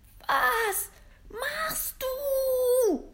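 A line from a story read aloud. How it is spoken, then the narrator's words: Desperate scream. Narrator (German): schrie, klammerte sich verzweifelt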